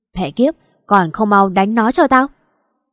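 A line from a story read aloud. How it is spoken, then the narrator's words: Enraged shout. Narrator (Vietnamese): Đôi mắt gã đã nhuộm màu máu đỏ mà quát lên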